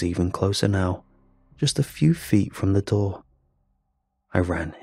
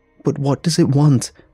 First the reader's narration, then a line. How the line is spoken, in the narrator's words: screamed